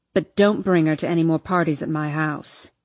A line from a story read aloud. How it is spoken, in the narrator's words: he snaps